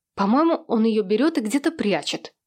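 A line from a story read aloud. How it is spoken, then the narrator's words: Irritated declaration. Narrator (Russian): раздраженно заявила Хэнни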